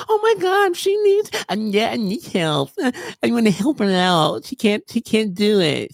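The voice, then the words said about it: Mocking girl voice. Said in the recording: “That's the girl voice.”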